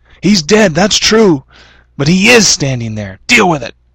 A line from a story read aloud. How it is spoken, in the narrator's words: Another part of his mind yelled back